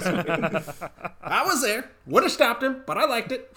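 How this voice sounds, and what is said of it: Imitates another person's voice. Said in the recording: “I was not expecting to do that good of an impression.”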